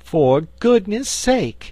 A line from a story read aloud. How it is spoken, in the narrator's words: she exclaimed on seeing the Frogman